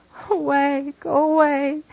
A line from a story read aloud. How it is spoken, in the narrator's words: moans